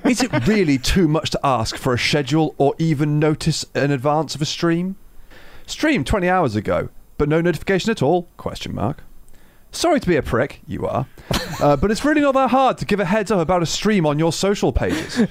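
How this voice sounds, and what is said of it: Smarmy put-on voice. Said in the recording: “Let me get my smarm on. ... do a voice.”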